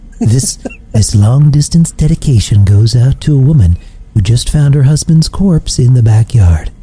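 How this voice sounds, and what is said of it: Imitates a radio countdown host's voice. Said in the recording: “his best Casey Kasem impersonation ... that's pretty good.”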